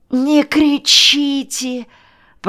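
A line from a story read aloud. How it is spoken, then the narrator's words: Distant moaning. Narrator (Russian): простонал из глубины Шаваносов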